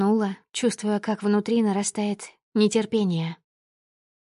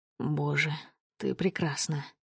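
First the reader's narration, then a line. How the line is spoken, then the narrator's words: Murmured. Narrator (Russian): Пробормотал он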